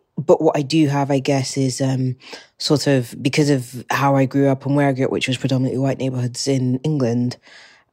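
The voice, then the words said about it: British accent. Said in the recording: “you can probably tell by my accent that I'm British”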